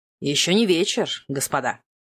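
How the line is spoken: Cold reply. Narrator (Russian): Холодно откликнулся герцог Веллингтон

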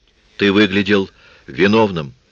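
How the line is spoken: Sharp. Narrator (Russian): сказала она резко

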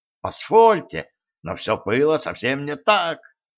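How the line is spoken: Angry exclamation. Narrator (Russian): гневно воскликнул Ганс

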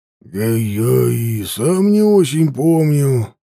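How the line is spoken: Uncertain. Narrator (Russian): неуверенно ответил я

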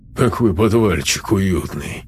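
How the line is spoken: Snort from ahead. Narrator (Russian): хмыкнул Косой откуда-то спереди

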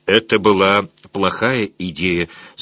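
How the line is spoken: Plain. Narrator (Russian): сказал Живи

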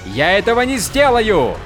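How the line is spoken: Shout. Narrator (Russian): крикнул Каладин

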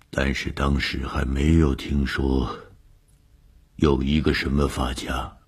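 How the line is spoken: Trembling voice. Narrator (Chinese): 何教授的声音颤抖了一下，接着说

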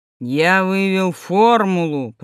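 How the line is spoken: Deep guttural voice. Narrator (Russian): произнес Сидоров утробным голосом

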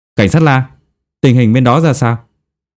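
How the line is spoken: Loud question. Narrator (Vietnamese): lớn tiếng hỏi

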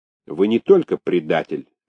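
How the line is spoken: Sharp announcement. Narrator (Russian): резко объявил

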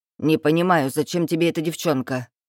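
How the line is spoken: Sharp. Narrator (Russian): говорит Зульфия резко

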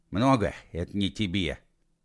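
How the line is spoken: Breathless exhale. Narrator (Russian): выдохнул Матушкин Фудину

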